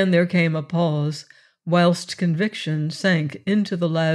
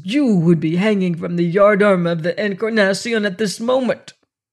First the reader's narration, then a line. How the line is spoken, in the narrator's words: he said at last in a thick voice